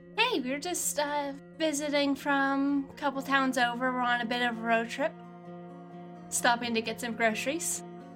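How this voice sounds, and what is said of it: Put-on American accent. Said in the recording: “in hopefully decently convincing American accent”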